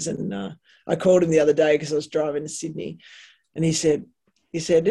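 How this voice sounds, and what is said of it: Usual voice. Nothing is said of it.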